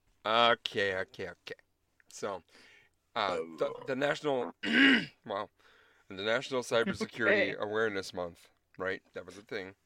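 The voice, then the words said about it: Strained, fading voice. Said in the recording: “I'm just losing my voice already”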